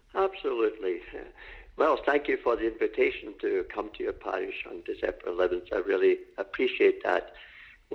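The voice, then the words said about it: Scottish accent. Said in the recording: “as some of you may guess from my accent, I was not born in Canada ... Scotland, you would call it. Scotland. And I was born in Scotland and in the city of Glasgow”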